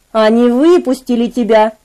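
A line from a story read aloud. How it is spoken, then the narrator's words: Plain. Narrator (Russian): сказал Дэвид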